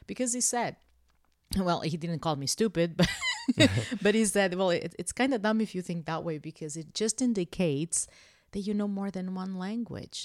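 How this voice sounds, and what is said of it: Non-native accent. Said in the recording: “because I have an accent, I'm afraid people won't understand me ... I'm very proud of my accent.”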